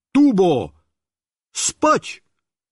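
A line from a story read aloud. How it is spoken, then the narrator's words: Shout. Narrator (Russian): Я крикнул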